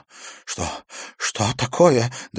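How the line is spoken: Trembling voice. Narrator (Russian): дрожащим голосом спросил Иверсон

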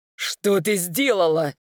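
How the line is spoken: Furious male growl. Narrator (Russian): в ярости прорычал мужчина

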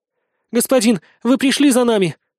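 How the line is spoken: Female sobbing. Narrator (Russian): разрыдалась Бетринна

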